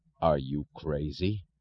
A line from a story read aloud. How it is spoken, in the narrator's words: Thompson asked, his voice unnaturally low